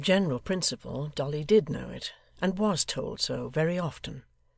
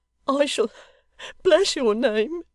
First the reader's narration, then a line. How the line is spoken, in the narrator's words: sobbed the locksmith's little daughter